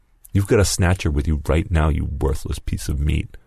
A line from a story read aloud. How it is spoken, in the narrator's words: Lewis snarled